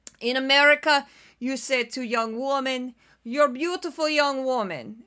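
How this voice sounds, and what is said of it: Deliberately bad put-on Russian accent. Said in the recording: “I can do bad Russian accent. How about that? I do very bad Russian accent”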